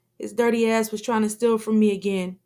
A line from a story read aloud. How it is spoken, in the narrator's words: Abdul screams with his strong accent